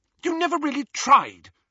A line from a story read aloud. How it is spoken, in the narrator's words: she said hotly